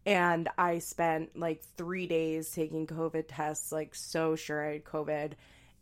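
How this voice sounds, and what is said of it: Congested, sick-sounding voice. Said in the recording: “you can hear it in my voice. I am sick. I have a sinus infection ... I couldn't breathe out of my nose”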